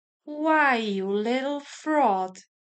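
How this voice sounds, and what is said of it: Soft, smooth, mocking voice. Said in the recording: “His voice was very close to me, mocking and smooth. ... Very softly, very clearly.”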